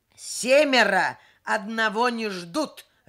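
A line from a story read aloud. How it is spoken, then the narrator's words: Barked by a man. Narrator (Russian): рявкнул мужчина в свитере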